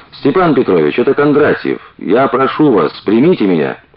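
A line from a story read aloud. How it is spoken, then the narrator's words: Irritated shout. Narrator (Russian): раздраженно крикнул Сергеев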